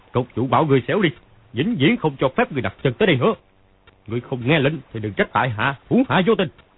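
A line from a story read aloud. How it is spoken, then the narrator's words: Loud bellow. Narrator (Vietnamese): Phàn Nhất Ông quát to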